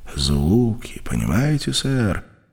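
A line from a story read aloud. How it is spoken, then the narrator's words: Uncertain speech. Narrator (Russian): неуверенно заговорил Колтер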